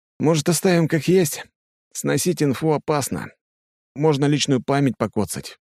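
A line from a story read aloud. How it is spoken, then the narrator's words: Tired. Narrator (Russian): произносит он устало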